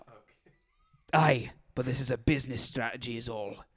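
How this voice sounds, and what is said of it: Put-on Scottish accent. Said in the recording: “I'm going to have a Scottish accent now.”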